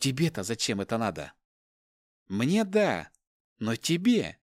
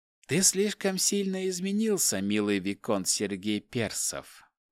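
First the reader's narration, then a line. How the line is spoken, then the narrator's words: Dropped in pleasant chesty voice. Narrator (Russian): проронила она грудным таким приятным голосом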